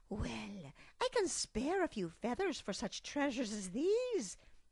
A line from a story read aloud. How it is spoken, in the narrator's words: Fiona proclaimed